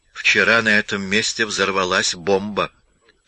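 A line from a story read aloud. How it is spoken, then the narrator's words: Plain. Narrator (Russian): сказал Чарли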